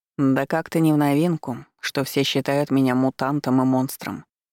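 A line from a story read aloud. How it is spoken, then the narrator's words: Calm. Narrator (Russian): спокойно сказал он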